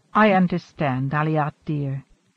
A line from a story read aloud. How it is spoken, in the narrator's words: she murmured